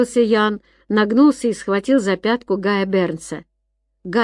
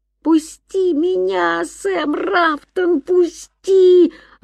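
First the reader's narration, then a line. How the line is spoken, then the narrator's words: Yelled. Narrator (Russian): орал он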